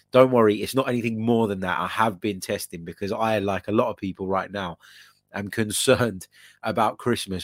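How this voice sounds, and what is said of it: Croaky, under-the-weather voice. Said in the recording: “You might be sensing in my voice that I sound a little bit under the weather ... my voice is a little bit croaky”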